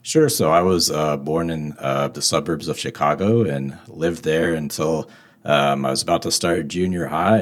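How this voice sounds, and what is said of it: Midwestern American accent. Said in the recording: “from the Midwest, the Midwest accent”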